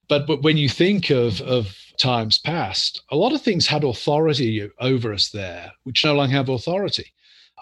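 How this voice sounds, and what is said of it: Non-native English accent. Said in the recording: “I'm an immigrant. My accent gives me away.”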